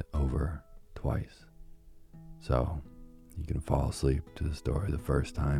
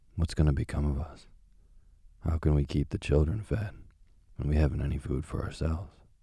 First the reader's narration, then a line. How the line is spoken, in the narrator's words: worrying about their poverty, he sighed and said to his wife